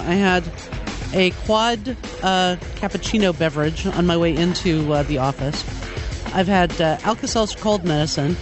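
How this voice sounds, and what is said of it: Sick, under-the-weather voice. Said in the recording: “I was sick all weekend, and as you can probably hear in my voice, I'm still getting over it”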